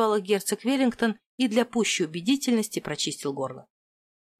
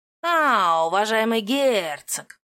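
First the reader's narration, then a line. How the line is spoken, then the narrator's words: Drawling, beaming smile. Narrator (Russian): протянул, лучезарно заулыбался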